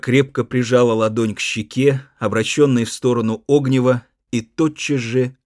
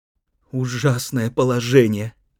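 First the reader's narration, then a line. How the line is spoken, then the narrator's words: Pained whisper. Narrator (Russian): прошептала она с выражением сильной боли на лице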